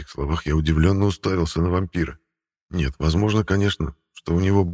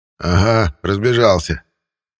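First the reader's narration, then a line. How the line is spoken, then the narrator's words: Vampire's scoffing snort. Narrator (Russian): хмыкнул вампир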